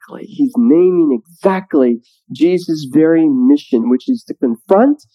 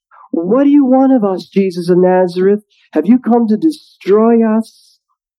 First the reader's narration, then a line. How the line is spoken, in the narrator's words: the unclean spirit shrieks